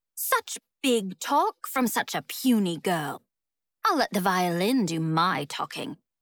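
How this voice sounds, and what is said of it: British accent character voice. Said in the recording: “his British accent ringing out across the grounds”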